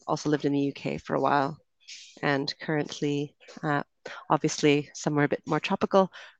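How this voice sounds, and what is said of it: Canadian accent. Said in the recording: “I'm from Canada, so that will be the accent you hear”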